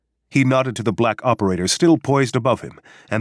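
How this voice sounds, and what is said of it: Usual voice. Nothing is said of it.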